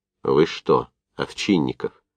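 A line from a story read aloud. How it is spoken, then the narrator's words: Quiet, restrained question. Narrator (Russian): тихо сдерживая себя, спросил Новиков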